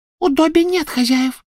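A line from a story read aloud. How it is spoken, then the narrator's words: Squeaky reply. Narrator (Russian): пропищал он в ответ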